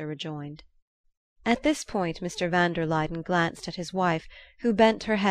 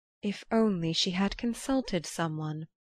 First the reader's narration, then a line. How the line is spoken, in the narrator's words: van der Luyden murmured